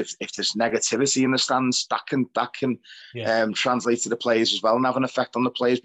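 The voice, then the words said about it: Hoarse, wrecked voice. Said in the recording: “my voice is a bit wrecked. It's still wrecked from breathing in blue smoke.”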